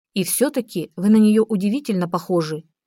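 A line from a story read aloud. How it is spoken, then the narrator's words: Plain. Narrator (Russian): сказала она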